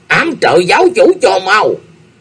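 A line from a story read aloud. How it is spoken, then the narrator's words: Panicked scream. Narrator (Vietnamese): Tử Hải Tiền Dương thét lên một tiếng thất thanh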